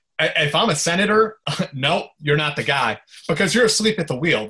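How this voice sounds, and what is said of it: Imitates a senator questioning someone. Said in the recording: “That's my impression of that.”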